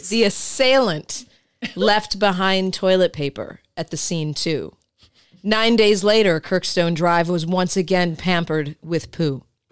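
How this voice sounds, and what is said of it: Journalistic newscaster voice. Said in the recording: “I'm loving your journalistic ... newscaster voice.”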